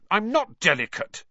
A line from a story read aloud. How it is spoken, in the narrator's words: said Harry crossly